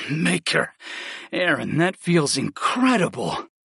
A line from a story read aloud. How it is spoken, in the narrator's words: I gasped